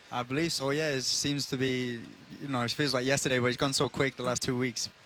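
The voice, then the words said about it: Mixed English and American accent. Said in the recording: “Outstanding accent, by the way. ... What's a blend of everything, right?”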